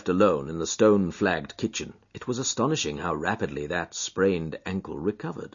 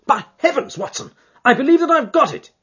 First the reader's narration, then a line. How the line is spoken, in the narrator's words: he cried